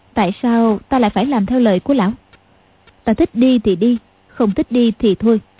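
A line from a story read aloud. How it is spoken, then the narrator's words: Cold. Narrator (Vietnamese): Tiểu Long Nữ lạnh lùng nói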